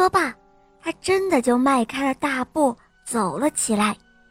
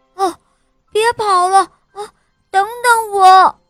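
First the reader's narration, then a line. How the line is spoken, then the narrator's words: Breathless shout. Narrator (Chinese): 他气喘吁吁地喊道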